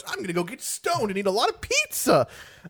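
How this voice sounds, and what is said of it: Cartoonish character voice. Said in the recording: “Hey, everybody, this is my cartoon voice.”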